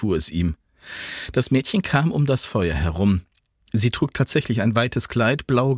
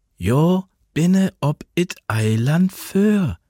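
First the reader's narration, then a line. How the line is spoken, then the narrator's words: Slow patient, as to child. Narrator (German): sagte sie, langsam und geduldig, als spräche sie zu einem Kind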